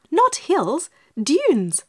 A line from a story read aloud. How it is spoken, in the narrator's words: cried Dorothy